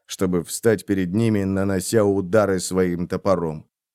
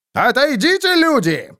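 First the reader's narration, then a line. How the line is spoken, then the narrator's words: Roared. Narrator (Russian): взревел он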